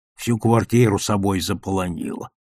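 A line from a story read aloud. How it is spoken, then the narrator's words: Grumbling father. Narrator (Russian): ворчал Борькин отец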